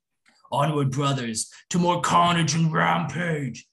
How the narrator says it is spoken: Skaldast roared

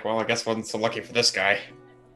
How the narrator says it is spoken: grumbles like

